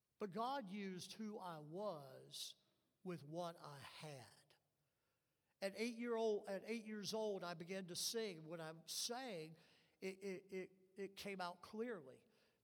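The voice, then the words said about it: Nasal voice, Southern accent. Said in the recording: “I still talk with nasality and my inherited southern accent”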